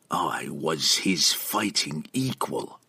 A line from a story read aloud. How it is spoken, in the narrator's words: he whispered again, with as much conviction as he could muster